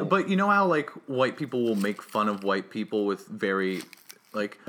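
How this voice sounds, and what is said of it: Usual voice. Nothing is said of it.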